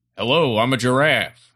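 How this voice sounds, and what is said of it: Silly imitated giraffe voice. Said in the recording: “my best imitation of a giraffe”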